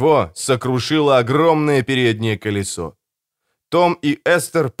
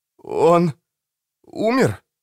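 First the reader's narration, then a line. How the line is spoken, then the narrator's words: Trembling voice. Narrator (Russian): спросил Том дрожащим голосом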